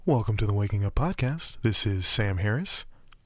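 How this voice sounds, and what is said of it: NPR-style radio host voice. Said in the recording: “My NPR voice just ends up sounding like Sam Harris”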